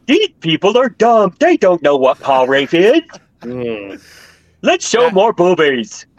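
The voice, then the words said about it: Impression of Rick Berman. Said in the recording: “That is the best impression of Rick Berman.”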